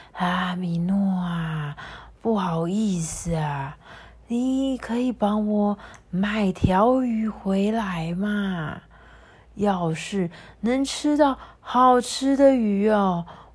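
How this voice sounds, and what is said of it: Weak, frail old man's voice. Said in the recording (Chinese): “用着跟平常不同、十分虚弱的声音说”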